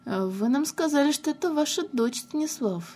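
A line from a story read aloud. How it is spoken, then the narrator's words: Quiet. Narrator (Russian): тихо сказала Инесса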